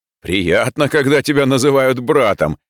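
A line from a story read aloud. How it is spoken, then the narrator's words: Pleased laughter. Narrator (Russian): С довольным видом засмеялся он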